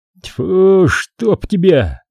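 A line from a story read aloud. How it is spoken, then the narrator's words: Annoyed, barely audible through teeth. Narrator (Russian): С досадой выругался Федор, процедив еле слышно сквозь зубы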